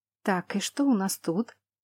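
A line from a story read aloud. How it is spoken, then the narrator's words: Muttering. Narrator (Russian): пробормотала я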